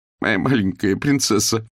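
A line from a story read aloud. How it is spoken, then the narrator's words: Sobbing. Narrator (Russian): всхлипнула Хвощева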